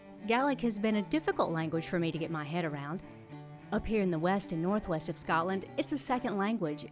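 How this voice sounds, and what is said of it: American Deep South accent. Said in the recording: “my Deep South accent”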